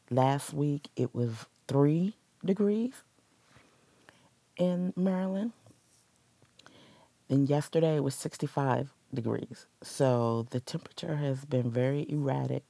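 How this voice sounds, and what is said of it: Slightly sick, strained voice. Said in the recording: “excuse my voice. I feel like I'm coming down with something”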